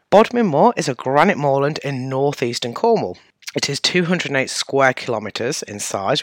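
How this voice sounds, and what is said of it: English Midlands accent, dropped consonants. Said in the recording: “I have one of the many Midlands-based accents, and this one has a tendency to drop H's, T's and D's”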